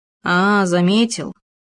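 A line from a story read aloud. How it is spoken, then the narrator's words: Displeased drawl. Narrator (Russian): недовольно протянул Хома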